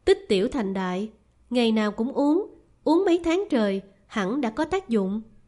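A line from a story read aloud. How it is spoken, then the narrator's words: Faint smile. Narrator (Vietnamese): Thôi Tuần mỉm cười nhạt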